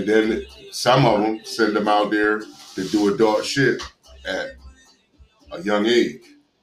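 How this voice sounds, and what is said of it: Pittsburgh-like regional accent. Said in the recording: “your accent. Sound like my brother's shit from Pittsburgh”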